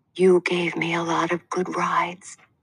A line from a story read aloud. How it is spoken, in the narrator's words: I whispered